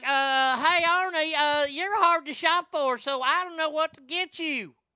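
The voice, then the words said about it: Poor imitation of a woman's voice. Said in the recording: “I can't do her voice. I'm not very good at it.”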